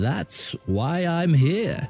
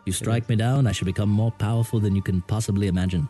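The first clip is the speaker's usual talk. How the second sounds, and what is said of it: Obi-Wan Kenobi movie character voice. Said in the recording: “that same accent ... I was doing old Obi-Wan Kenobi, and then I switched over to a line from young Obi-Wan”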